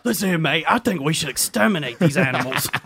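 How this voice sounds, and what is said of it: Put-on British accent, Jason Statham-like. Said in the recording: “I can only do one British accent, ... it's some kind of Statham. ... Yeah, it's a Statham”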